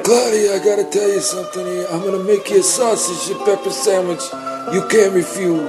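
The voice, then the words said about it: Impression of the Godfather Don. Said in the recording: “do a little impression of the Don himself”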